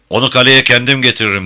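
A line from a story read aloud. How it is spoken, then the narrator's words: Shouted over shoulder. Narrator (Turkish): diye bağırdı Jim arkasına bakmadan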